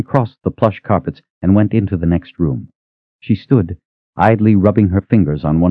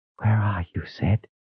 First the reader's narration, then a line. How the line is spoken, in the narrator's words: whispered